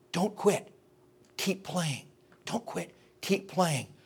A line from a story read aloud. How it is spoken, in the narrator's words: whispered in his ear, and he said